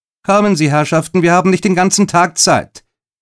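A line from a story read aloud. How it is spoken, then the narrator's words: Impatient call. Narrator (German): rief sie ungeduldig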